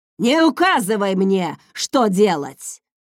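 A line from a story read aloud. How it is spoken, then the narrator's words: Father barking. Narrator (Russian): рявкнул его отец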